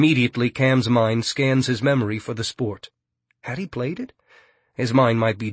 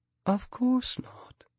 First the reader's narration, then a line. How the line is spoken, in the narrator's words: she says calmly